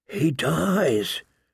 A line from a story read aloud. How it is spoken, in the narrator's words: she whispered